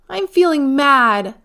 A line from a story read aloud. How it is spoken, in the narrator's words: she yelled